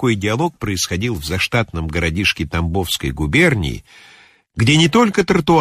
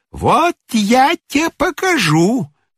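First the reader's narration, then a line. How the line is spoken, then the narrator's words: Shrieked. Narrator (Russian): взвизгнула приставиха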